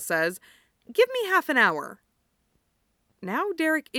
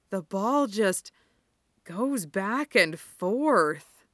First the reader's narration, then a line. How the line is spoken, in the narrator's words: he says in a wondering tone